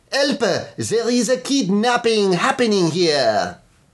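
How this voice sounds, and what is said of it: Put-on French accent. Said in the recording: “you could do it in an accent. ... they're Swedish? ... well, I was going for French,”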